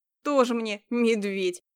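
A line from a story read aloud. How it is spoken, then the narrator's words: Snorting scoff. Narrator (Russian): хмыкнула Яна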